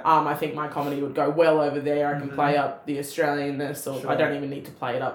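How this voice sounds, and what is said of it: Broad Australian Bogan accent. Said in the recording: “My Bogan accent slips right through”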